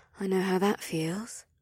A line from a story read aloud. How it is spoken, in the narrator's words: Sevelia muttered